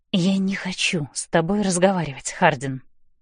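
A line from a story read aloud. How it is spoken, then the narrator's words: Whispering through gritted teeth. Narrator (Russian): сквозь зубы шепчу я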